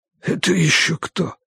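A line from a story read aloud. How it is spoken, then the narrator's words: Whisper. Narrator (Russian): прошептал Нардо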